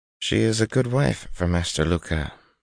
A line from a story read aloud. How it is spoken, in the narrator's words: Tuon murmured